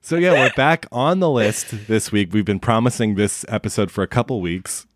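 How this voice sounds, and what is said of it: Slightly nasal, congested voice. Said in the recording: “my voice sounds a little nasally.”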